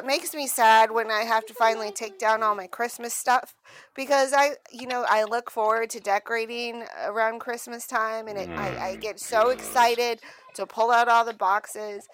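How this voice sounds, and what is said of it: Valley Girl voice. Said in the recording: “have you always spoken with that Valley Girl voice? ... you got a Valley Girl voice.”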